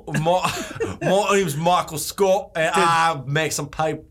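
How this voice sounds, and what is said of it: Mixed Australian-Scottish put-on accent. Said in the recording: “what is that accent, dude? ... A little bit Australian and Scottish. ... That's a Scottish accent there, mate.”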